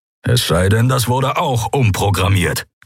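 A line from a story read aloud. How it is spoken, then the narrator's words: Growled. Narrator (German): knurrte Keru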